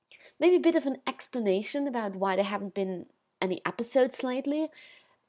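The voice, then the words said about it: Distinctive, unusual accent. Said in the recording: “you clearly hear who I am because this accent is rather unique”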